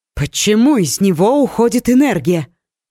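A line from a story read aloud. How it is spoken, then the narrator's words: Anxious question. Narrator (Russian): взволнованно спросила Ори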